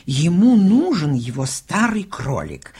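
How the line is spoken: Exclamation. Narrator (Russian): воскликнула

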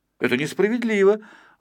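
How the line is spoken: Exclaimed. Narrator (Russian): воскликнул Пончик

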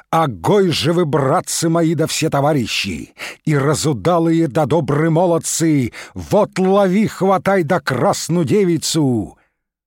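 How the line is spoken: Old Cossack's calling shout. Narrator (Russian): Закричал тут старый казак дозычным голосом

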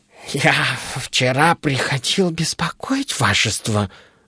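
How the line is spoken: Mumbling. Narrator (Russian): забормотал он

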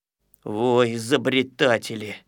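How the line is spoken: Grumbling. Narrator (Russian): ворчал, конечно, ворчун

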